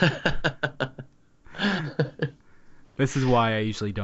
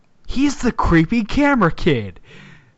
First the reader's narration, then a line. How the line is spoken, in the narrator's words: shouted